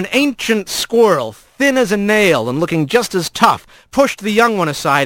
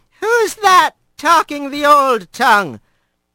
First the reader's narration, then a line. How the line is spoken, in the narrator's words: a wavering voice called out in Shurid from behind the door